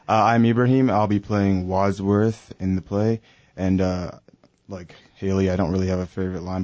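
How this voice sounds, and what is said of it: English accent, radio voice. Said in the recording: “So you have an English accent? ... I like your English accent. ... you have got a radio voice.”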